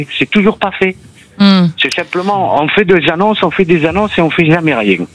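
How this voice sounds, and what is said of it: Perpignan southern French accent. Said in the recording (French): “l'accent de Perpignan”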